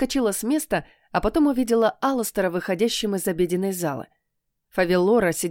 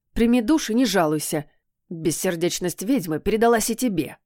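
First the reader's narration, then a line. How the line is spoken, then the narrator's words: Angry growl. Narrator (Russian): Рыкнул он злобно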